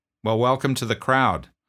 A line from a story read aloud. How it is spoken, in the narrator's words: I said